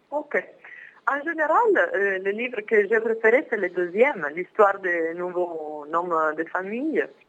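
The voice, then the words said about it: Italian accent speaking French. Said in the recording (French): “mon accent italien... c'est très bien, c'est très joli.”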